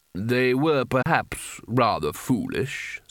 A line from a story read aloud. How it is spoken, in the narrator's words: said Carding smoothly